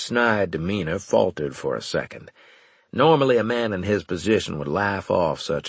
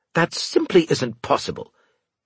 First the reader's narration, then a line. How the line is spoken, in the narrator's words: he snapped